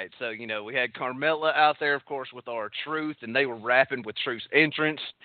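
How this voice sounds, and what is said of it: Deep exaggerated Texas accent. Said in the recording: “My Texas accent can go a little bit deeper, and I could talk like this. ... That's quite good, yes. ... I'm going to stop doing that now”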